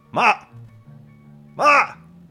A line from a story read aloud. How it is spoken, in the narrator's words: Lucky yells